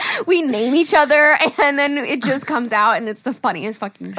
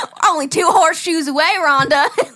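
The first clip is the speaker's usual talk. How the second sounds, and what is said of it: Put-on country accent. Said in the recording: “we just started busting out a country accent”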